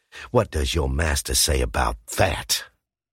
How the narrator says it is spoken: Scout snarled

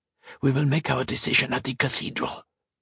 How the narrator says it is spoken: hissed Colette

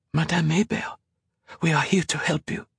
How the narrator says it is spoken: Colette whispered in French

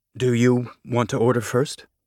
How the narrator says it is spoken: Kit said, careful to keep his voice neutral

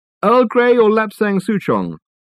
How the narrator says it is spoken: called out Reg

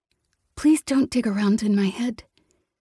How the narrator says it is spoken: she said, her voice tight and small

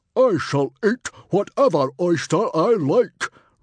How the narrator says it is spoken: roared Stoic the Vast

